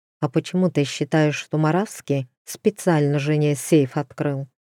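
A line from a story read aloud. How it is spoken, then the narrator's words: Plain. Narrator (Russian): спросил Алексей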